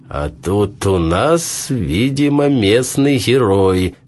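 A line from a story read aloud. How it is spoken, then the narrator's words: Mocking. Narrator (Russian): сказал он насмешливо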